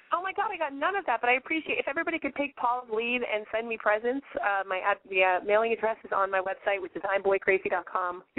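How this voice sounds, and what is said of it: Hoarse, strained voice. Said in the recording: “I've lost my voice this week? It's kind of intense. ... You sound kind of different”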